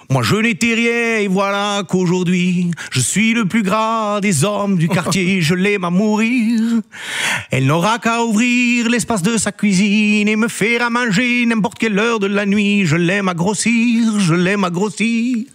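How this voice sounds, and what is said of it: Sung imitation with put-on accent. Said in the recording (French): “quand on parle de Francis Cabrel, on a quand même envie de prendre un accent”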